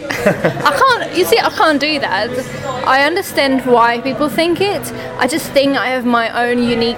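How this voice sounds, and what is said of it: Near-native British-sounding English accent. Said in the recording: “You do sound British to me... you do have a British accent... probably a British person could tell that you are not a native British person... you definitely do sound British”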